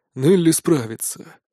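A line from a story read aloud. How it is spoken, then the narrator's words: Calm speech. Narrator (Russian): заговорил Узимир спокойно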